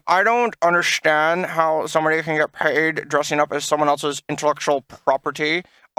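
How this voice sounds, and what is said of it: Imitates another person's voice. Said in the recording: “that's a really good impression of Taylor.”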